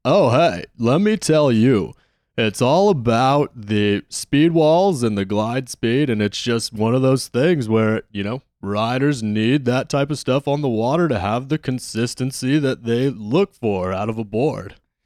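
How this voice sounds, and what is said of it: Imitates another person's voice. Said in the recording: “It sounds like Ferraro's back here right now, man. That is perfect... you got the best impression... I've got a pretty good one”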